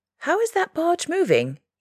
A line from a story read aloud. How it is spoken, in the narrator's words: he cried